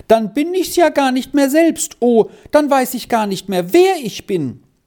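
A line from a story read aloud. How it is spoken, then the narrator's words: Terrified scream. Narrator (German): schrie Squirrel in völliger Angst auf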